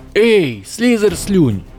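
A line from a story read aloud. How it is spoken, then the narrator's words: Shouted. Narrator (Russian): закричал Эрни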